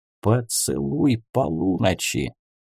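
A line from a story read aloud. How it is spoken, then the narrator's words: Whispered in ear. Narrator (Russian): прошептал на ухо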